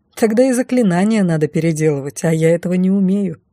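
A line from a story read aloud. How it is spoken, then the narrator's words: Snorting. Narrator (Russian): Фыркнула я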